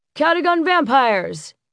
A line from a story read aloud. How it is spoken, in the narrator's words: Sean yelled